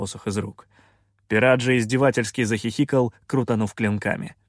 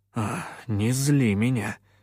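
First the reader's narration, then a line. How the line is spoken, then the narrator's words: Muttered in Russian. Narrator (Russian): пробормотал я по-русски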